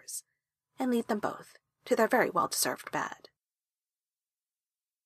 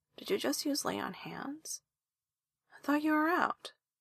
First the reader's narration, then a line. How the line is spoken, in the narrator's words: Esther mumbles into his shoulder